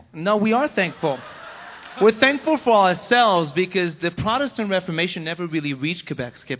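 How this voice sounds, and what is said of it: French Canadian accent. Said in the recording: “in French Canada, where I'm from, as you can hear my accent”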